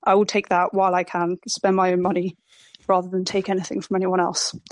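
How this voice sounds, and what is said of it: Shaking, emotional voice. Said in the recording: “I know my voice is shaking.”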